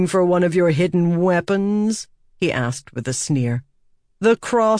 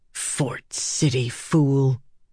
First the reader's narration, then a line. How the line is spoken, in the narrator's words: she whispered